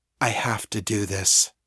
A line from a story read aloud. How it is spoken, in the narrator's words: whispered